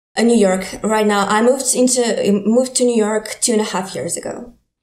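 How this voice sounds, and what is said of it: Ukrainian accent. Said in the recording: “you have an accent. You're from Ukraine originally.”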